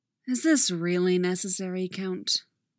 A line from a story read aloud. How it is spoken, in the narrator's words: Obi-Wan sighs